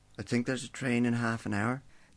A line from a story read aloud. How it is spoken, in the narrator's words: the teenager mumbled nervously